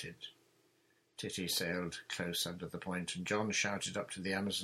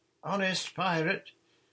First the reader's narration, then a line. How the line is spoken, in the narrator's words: shouted Nancy